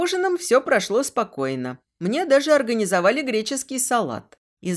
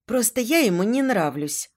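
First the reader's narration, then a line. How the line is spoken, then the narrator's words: Sighing. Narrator (Russian): вздохнула я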